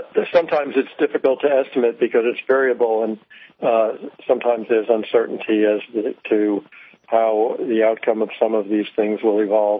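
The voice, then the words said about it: Slightly hoarse voice. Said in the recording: “I'm a little bit hoarse,”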